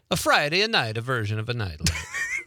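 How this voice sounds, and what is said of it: Mock Italian accent. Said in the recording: “I almost morphed into an Italian accent there ... That was spot on.”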